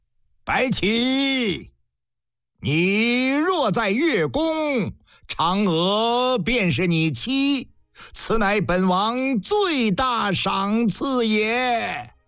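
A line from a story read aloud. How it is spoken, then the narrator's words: Laughing, sighing, calling out. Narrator (Chinese): 秦昭王一阵大笑，一阵唏嘘，对着天中明月一声呼喊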